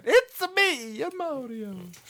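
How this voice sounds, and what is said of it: Mario impression, Italian-style accent. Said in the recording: “Mario accent”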